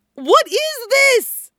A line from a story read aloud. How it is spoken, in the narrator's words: Mikurin howls … face red as a lobster